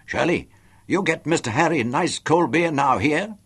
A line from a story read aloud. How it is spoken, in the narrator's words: shouted at one of her counter girls